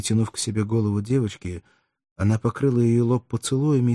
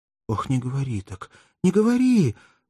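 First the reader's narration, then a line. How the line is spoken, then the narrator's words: Anguished pleading cry. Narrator (Russian): воскликнула бедная женщина еще сильнее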